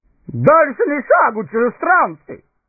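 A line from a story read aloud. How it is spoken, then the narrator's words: Booming guttural shout. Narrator (Russian): зычно крикнул начальник стражи, на своем гортанном языке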